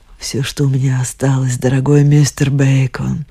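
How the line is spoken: Moaning. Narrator (Russian): простонала она

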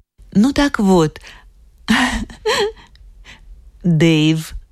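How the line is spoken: Laughing, sweetly embarrassed. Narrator (Russian): засмеялась с милым смущением

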